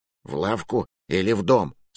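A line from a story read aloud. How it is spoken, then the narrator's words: Hushed whispered question. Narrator (Russian): спросил шепотом, боясь спугнуть эту тишину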